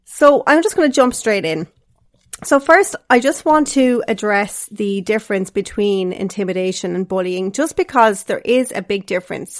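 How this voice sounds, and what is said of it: Sick, rough-sounding voice. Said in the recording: “I actually have COVID right now and I've been sick for the last few days, so my voice isn't sounding great ... please bear with me if my voice doesn't sound as beautiful as it normally does”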